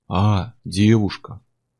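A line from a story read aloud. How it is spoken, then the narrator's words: Drawn out, thoughtful. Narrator (Russian): протянул здоровяк задумчиво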